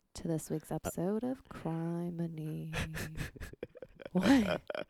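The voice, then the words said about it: Smooth jazzy radio voice. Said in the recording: “radio voice ... spooky jazz ... a little smooth jazzy ... smooth jazz Halloween”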